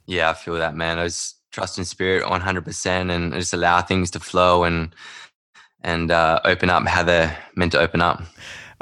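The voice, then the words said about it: Australian accent. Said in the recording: “accent may have given it away. He's not from Brooklyn. He's actually from way out in Perth”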